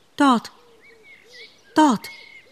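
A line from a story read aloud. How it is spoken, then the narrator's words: Speechless stammering. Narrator (German): Er fand keine Worte und stammelte nur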